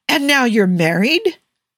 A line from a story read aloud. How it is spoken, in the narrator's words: Matthew burst out laughing